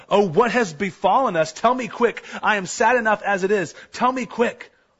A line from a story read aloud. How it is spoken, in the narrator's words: Luther cried